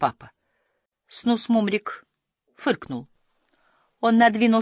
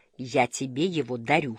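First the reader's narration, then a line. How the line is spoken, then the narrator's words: Plain. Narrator (Russian): сказал он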